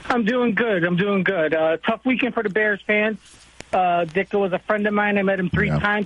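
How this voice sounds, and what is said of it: Strong regional accent. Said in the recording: “you sounded like an SNL skit right there, pal. Dicka. ... when I get sad and excited, the accent comes out a little more.”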